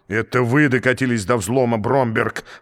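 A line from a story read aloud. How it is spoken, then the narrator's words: Roaring. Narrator (Russian): взревел экселленс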